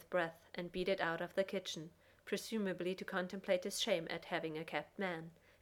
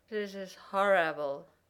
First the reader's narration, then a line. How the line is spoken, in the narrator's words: Jack slurred